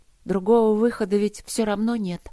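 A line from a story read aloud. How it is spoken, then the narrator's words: Slightly trembling, calm. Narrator (Russian): сказала чуть дрогнувшим голосом, но неуязвленно, спокойно принимая, что слабее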